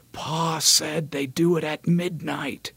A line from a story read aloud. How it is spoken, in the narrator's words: he whispers fiercely